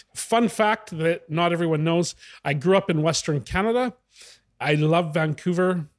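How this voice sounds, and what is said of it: Noticeable non-Italian accent. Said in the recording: “I can sense the accent. It's not Italian, but definitely there's one there.”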